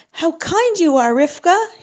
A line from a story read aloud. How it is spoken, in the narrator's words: said happily